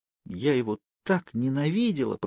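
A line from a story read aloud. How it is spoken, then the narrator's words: Whisper. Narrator (Russian): прошептала Кейт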